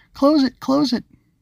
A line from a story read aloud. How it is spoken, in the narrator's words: the voice cried out frantically